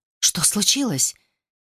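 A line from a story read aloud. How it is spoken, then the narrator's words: Frightened whisper. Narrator (Russian): испуганно прошептала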